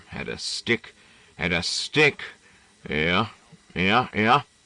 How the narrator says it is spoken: The old man cursed at them muttering

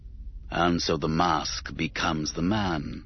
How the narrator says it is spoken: sighed, with a hint of philosophical melancholy

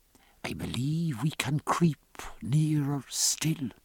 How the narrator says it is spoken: Presently Stephen whispered

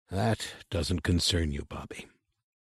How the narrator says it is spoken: said the old man, more gently still

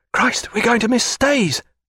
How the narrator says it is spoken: whispered Babington

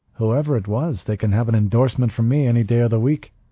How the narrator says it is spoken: Ortega said cheerfully

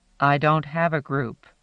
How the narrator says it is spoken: answered, equally sternly

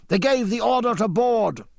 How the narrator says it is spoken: James shouted

